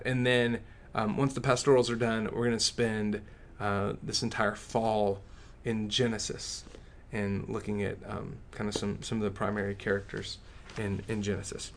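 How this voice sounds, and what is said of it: West Texas accent. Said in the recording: “that West Texas accent betrays me occasionally”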